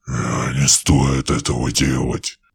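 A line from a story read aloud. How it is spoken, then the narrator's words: Angry growl from behind. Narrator (Russian): послышалось за спиной злобное рычание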